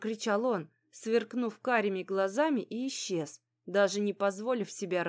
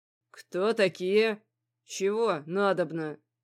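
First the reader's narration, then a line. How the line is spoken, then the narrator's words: Deep bass question. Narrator (Russian): спросил он басовитым голосом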